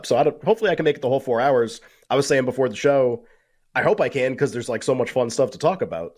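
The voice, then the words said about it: Strained, damaged-sounding voice. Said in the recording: “My voice is kind of messed up.”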